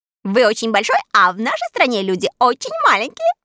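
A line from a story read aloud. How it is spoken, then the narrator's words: Laughing explanation. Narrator (Russian): смеясь, объяснила сорока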